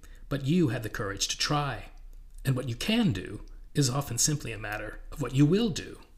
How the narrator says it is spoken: said Reason gravely

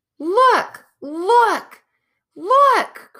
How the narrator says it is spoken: cried Lucy

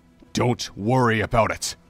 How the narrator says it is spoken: Link said, his tone harsh

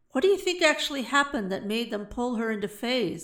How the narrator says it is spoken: asked Osei

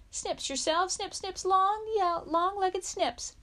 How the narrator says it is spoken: a freckled boy with fire-colored hair yelled

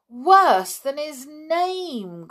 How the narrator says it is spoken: groaned Jock

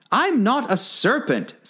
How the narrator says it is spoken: said Alice indignantly

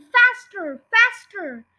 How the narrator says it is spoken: The fat was hopping like a dervish and shouting

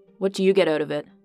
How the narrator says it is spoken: Alice asked sharply

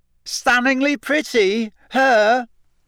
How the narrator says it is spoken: Pansy Parkinson had shrieked

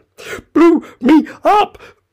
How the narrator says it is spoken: panted the queen, who was still a little out of breath

